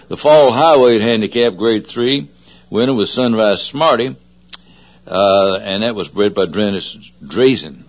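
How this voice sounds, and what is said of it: Southern American accent. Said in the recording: “My southern accent gets in the way”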